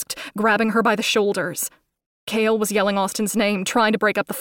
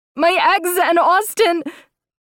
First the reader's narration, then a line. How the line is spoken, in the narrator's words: She started crying hysterically